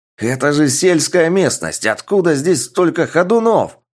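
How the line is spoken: Roaring. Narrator (Russian): проревел младший брат

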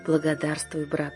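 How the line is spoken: Happy tearful whisper. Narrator (Russian): прошептал Юлиус и утер счастливую слезу

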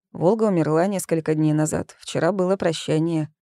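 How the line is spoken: Dry reply. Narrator (Russian): сухо ответил

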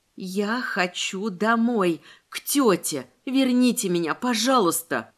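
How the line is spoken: Panicked whisper, crying. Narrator (Russian): Поддавшись новой волне паники, прошептала я и заплакала

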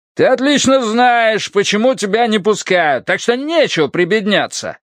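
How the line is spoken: Yelling. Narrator (Russian): орал контролер

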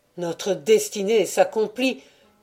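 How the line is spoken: Sudden scream. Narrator (French): hurla tout à coup Walter

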